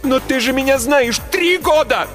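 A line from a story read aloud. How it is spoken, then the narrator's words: Shouted. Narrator (Russian): Закричала я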